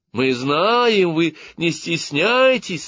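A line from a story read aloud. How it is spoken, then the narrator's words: Joyful group shouting. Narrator (Russian): радостно закричал весь игровой состав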